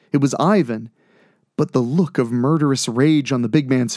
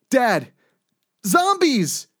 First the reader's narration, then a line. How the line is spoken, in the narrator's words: Jake yelled